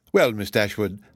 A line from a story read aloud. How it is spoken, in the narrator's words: said Mrs